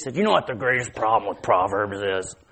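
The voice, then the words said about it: Imitates another person's voice. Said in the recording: “my Randy Harris impression”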